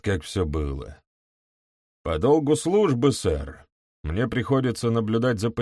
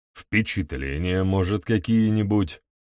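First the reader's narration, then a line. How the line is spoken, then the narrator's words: Suspicious grumble. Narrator (Russian): С каким-то подозрением в голосе пробурчал Пруэн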